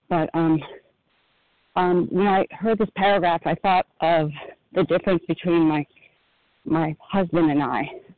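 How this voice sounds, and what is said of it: Slightly out of breath. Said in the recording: “a little out of breath.”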